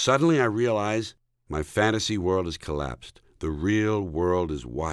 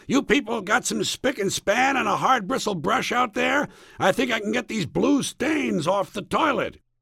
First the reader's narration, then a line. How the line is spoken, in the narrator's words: yelling